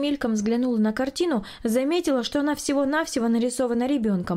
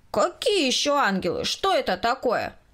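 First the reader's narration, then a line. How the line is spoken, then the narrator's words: Loud question. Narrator (Russian): Громко спросил Коля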